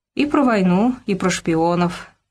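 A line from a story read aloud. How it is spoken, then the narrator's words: Sad sigh. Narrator (Russian): снова вздохнул Вениамин Павлович, с грустью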